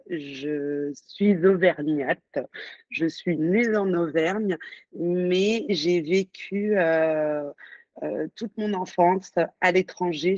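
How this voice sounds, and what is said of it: Singsong accent. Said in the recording (French): “D'où vient ton accent chantant ... j'ai cet accent euh, parfois, même souvent.”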